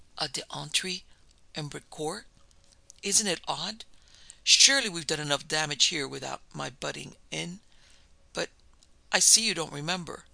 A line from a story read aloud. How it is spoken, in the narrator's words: said in a strange voice, almost a whisper